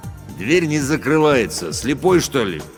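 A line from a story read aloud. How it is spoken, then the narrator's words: Deep bass from behind. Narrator (Russian): пробасил за моей спиной охранник Рустам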